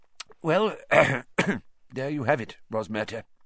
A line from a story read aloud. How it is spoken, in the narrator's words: said Fudge thickly